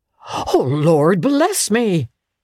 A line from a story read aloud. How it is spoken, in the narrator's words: cried the gentleman, as if his breath were taken away